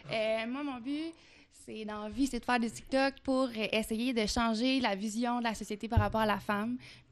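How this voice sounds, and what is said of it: Light Québécois French accent. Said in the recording (French): “Je suis une bonne Québécoise. J'ai un petit accent québécois.”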